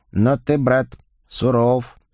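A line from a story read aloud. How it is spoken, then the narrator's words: Respectful drawl. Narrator (Russian): с уважением протянул Николя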